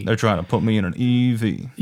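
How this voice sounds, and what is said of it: Badly done put-on accent. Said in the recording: “that was a terrible it's accent ... It was offensive”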